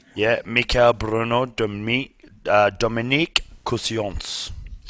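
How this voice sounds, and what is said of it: Put-on French accent. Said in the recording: “Your French accent is phenomenal.”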